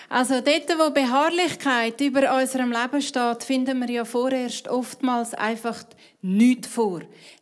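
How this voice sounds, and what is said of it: Speaks Swiss German dialect. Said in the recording (German): “auf Schweizerdeutsch ... Schweizerdeutsch”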